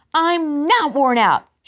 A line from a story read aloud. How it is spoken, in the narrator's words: she shrieked